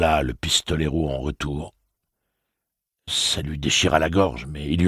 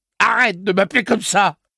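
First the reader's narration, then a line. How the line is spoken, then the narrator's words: Yelped. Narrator (French): glapit Eddie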